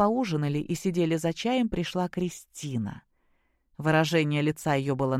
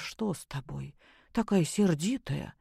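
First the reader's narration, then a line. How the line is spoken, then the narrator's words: Frightened question. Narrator (Russian): Любовь Сергеевна спросила испуганно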